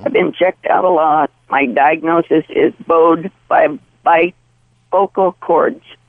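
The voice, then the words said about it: Coarse, hoarse voice. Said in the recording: “I have a coarse, hoarse voice. I've had it for quite some time ... my voice has been degrading for probably 30 years”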